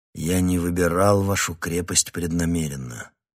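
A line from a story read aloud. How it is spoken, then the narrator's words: Weary. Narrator (Russian): устало произнес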